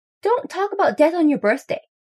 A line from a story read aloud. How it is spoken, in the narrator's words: yells Thea from over by the punch